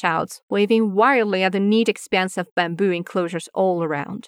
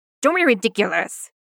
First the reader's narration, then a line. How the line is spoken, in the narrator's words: Jingling snaps